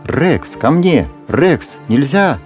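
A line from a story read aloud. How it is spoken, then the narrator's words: Shouting. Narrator (Russian): закричал хозяин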